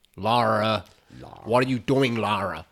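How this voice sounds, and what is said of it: English speaker's put-on American accent. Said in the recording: “Daniel Craig's accent... the English bloke... doing an American accent”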